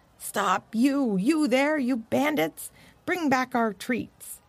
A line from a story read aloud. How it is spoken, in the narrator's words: the dogs yelling from the road